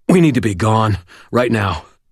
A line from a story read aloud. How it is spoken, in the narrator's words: choked out